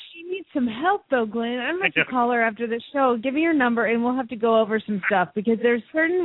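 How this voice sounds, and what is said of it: Usual voice. Nothing is said of it.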